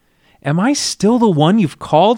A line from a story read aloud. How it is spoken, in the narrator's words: I cried out with my knees shaking